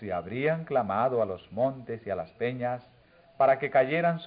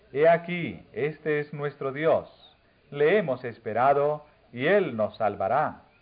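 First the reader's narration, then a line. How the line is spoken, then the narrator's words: Exclaiming crowd. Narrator (Spanish): habrían exclamado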